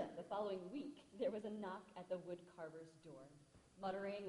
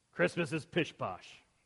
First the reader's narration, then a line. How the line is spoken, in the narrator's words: said Jonathan gruffly